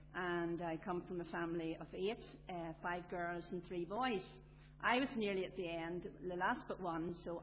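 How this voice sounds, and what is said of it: Belfast accent. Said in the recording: “as you know by my accent, you'll realise that I'm a city girl, born and bred in Belfast”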